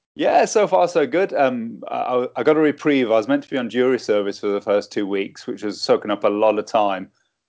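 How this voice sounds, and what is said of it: Accent like a Game of Thrones extra. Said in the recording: “we love your accent. ... You make us sound smart ... Sound like an extra from Game of Thrones, don't it?”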